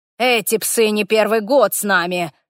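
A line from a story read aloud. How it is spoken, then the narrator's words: Irritated, curt. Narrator (Russian): раздраженно бросил Глаз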